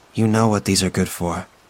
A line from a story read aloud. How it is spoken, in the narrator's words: says, flatly, and uncaring